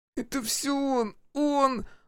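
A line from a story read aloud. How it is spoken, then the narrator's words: Moaning young man. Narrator (Russian): застонал молодой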